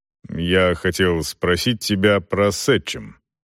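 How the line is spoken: Embarrassed mumble. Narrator (Russian): Селдон, стараясь не смотреть на нее, пробормотал

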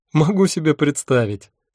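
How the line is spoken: Laughing. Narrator (Russian): снова рассмеялась она

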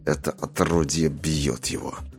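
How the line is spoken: Mumble. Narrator (Russian): пробормотал он

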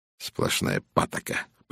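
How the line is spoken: Grumble. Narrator (Russian): проворчал он

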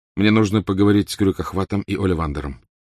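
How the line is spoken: Plain. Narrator (Russian): сказал Гарри

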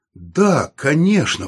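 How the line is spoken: Exclaimed. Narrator (Russian): воскликнул он

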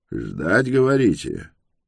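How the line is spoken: Gruff mutter. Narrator (Russian): буркнул он

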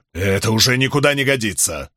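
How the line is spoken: Stern. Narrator (Russian): строго сказал Бидвелл

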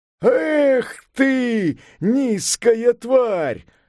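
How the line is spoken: Yelling. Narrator (Russian): заорал Сунь-Укун

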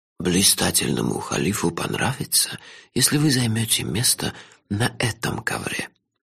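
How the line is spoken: Barely audible whisper, old man. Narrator (Russian): еле слышным шепотом подсказал старик

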